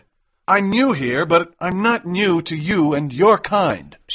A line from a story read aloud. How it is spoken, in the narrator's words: shouted McMurdo